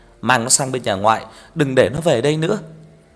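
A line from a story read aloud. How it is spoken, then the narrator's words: Loud shout. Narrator (Vietnamese): Bà gọi vợ anh Bình quát lớn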